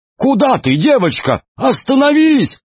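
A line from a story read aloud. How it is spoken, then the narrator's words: Shouted. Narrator (Russian): крикнул представитель института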